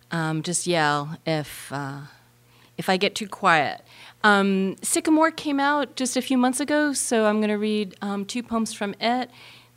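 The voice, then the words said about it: Voice slightly off from a cold. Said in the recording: “I'm getting a cold, so my voice is a little bit off.”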